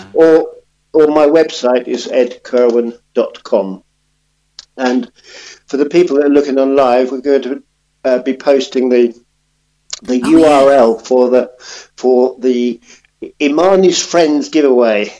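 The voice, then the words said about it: Slightly hoarse, croaky voice. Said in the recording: “I've got a little frog in my throat.”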